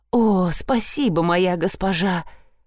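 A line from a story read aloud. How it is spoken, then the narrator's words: Mumbling. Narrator (Russian): промямлил он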